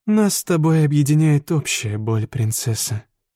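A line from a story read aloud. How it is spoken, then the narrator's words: Sad speech. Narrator (Russian): печально заговорила Юри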